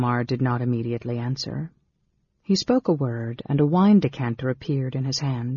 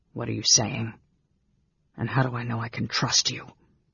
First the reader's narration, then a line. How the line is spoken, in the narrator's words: He swallowed, then managed to whisper huskily